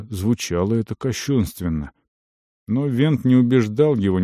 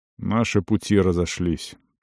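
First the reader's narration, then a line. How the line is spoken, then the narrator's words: Warrior's muffled voice. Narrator (Russian): продолжил воин глухо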